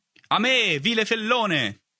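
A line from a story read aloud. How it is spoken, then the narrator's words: Shout from behind. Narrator (Italian): gridò una voce alle mie spalle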